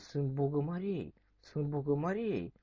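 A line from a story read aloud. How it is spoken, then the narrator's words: Silly whispering. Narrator (Russian): они глупенько перешептутся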